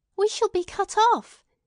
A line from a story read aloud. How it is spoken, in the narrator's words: Minta shrieked, suddenly terrified